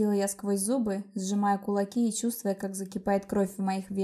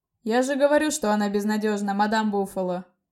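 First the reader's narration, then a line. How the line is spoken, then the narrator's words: Gloating. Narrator (Russian): Злорадостно улыбнулся Коста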